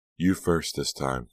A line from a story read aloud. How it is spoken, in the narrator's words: Delia laughed